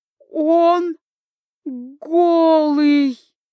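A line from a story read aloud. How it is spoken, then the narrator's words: Halting, strained princess exclamation. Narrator (Russian): По буквам выдавила из себя принцесса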